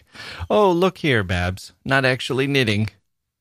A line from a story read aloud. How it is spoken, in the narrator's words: a voice as fresh laughed back